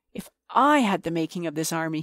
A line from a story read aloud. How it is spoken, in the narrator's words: he cried